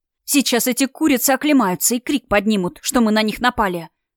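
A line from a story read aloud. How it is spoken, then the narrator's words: Hiss while hurrying. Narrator (Russian): прошипела она, перепрыгивая со ступеньки на ступеньку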